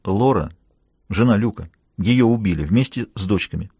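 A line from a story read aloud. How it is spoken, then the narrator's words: Whispered. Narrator (Russian): Я прошептал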